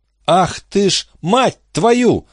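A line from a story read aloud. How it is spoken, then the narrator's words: Shouting. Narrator (Russian): закричала Рут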